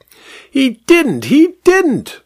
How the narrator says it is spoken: shrieked the vicar

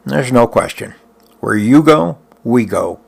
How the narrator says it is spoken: Krepow said

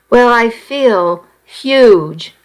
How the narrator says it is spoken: I said

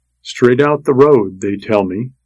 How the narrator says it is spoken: he said

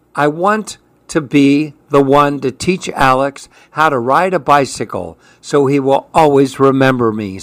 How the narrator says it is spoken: said Mike

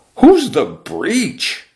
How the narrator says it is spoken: the exponentially multiplying boys cried out

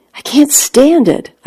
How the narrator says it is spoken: I cried out

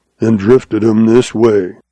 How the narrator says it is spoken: growled Grizzly

